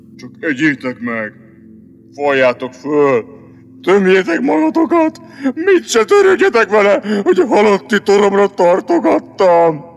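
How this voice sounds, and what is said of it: Gloomy sepulchral character voice. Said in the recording (Hungarian): “Mondta síri hangon ... Mondta még síribb hangon”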